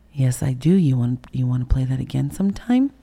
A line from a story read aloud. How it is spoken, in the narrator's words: he calmly turns around and he goes